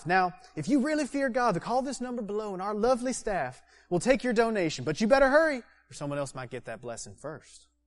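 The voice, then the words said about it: Put-on Southern TV preacher accent. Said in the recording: “those TV preachers that I saw on hotel TVs growing up in Georgia ... I can do the accent because I grew up in Georgia”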